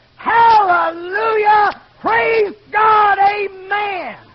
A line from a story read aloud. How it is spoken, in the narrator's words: shouting